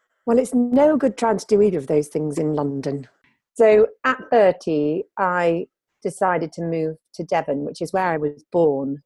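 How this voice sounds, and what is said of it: Posh northern English accent. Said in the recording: “clearly northern accent ... more of an RP, not quite an RP, but more RP than northern ... posh northern”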